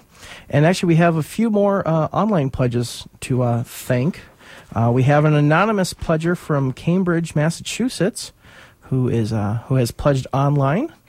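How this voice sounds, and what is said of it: Sore, tired voice. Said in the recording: “you can tell my voice is a little sore and I'm a little exhausted today”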